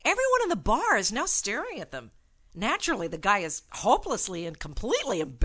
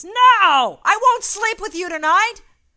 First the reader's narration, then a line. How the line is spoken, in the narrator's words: The woman responds by yelling at the top of her lungs